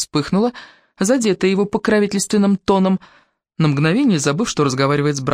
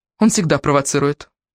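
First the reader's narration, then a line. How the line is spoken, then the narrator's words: Dismissive snort. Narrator (Russian): Томас хмыкнул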